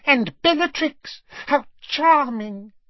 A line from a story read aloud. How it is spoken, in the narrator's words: he said in a squeaky voice